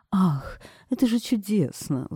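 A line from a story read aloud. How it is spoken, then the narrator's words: Exclaiming. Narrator (Russian): воскликнула она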